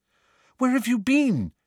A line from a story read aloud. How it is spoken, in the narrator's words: said Hermione anxiously